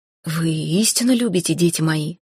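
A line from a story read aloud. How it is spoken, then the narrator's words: Breathed out. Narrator (Russian): выдохнул он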